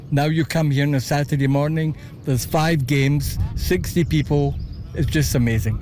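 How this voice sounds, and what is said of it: Scottish Glasgow accent. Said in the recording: “I couldn't help but notice your accent. ... Originally from Glasgow.”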